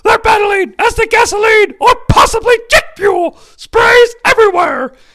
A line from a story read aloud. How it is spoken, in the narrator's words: Tony Schiavone yells